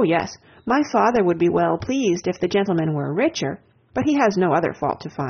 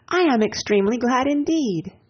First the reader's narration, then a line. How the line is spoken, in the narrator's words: cried Anne